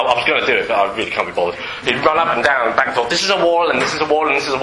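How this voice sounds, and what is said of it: Usual voice. Nothing is said of it.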